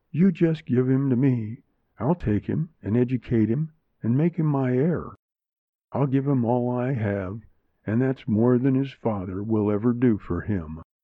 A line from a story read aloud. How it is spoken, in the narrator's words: said kindly